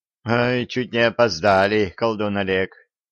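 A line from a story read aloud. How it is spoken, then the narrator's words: Relieved sigh. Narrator (Russian): облегченно вздохнул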